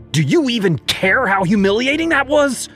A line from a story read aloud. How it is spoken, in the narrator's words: yelled